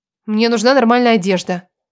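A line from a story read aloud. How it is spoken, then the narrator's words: Grumbled. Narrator (Russian): проворчала я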